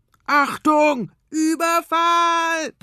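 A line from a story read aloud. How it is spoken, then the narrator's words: Roar. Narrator (German): brüllt Tobias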